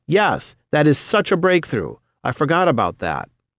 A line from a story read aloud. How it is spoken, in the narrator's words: she cried out